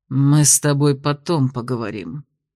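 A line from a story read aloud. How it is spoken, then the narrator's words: Hateful, through teeth. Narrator (Russian): процедил теневик, с ненавистью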